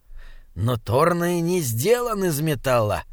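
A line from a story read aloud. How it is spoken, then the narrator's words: Grumbling. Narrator (Russian): проворчал Бинабик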